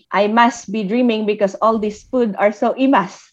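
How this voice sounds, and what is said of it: Ilocano or Tagalog accent. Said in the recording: “in my Ilocano or Tagalog accent ... to use my accent”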